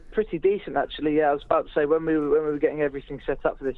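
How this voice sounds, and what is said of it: English accent. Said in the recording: “you're an Englishman ... despite my accent”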